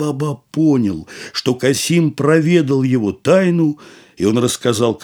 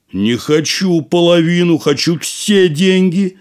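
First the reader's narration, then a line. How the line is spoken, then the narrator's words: Shouting. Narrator (Russian): закричал Касим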